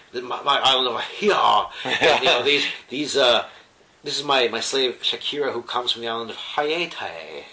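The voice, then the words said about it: Overwrought Southern accent. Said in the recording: “he speaks in the most overwrought southern accent ... This really overwrought southern accent.”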